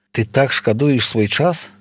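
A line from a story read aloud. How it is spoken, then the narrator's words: Smiling. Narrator (Belarusian): усміхнулася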